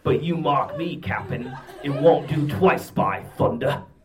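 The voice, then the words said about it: Poor put-on Australian accent. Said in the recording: “Now you're Kangaroo Jack. Now you're Australian. ... Your sorry accent work ... is about as good as Wishbone's.”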